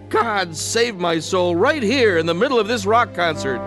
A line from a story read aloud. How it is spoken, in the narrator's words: cried out